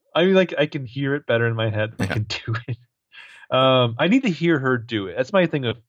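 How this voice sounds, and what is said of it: Usual voice. Nothing is said of it.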